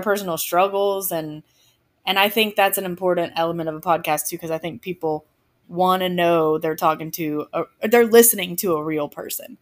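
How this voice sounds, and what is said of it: Southern American accent. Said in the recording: “what's that accent? ... I am from the South. I grew up just west of Atlanta. ... I'm not a huge fan of my accent”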